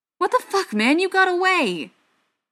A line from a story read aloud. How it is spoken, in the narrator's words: Joe exclaimed, as best he was able without hurting his head anymore